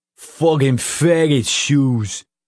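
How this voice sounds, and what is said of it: Thick Brooklyn accent, mumbled. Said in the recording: “in a Brooklyn accent so thick it sounded like his mouth was full of marbles”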